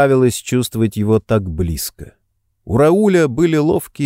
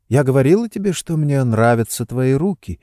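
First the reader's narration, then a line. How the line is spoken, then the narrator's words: Whispered. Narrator (Russian): прошептала она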